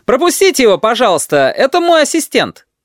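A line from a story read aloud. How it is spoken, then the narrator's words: Shouted plea. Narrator (Russian): он прокричал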